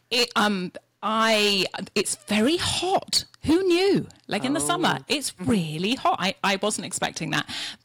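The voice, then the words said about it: English Yorkshire accent. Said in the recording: “I love your accent. ... From Yorkshire in England.”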